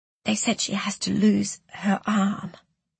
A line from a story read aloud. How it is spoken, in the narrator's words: she whispered